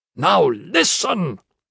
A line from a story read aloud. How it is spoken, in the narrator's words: said fiercely